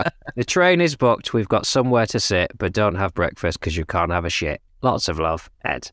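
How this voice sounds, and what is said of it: Usual voice. Nothing is said of it.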